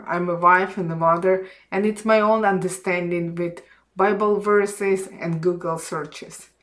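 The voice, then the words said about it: Non-native English accent. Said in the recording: “my English is not perfect ... my accent and grammar”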